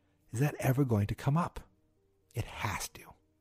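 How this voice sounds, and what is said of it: Usual voice. Nothing is said of it.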